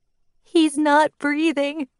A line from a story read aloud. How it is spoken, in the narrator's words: Kate sobbed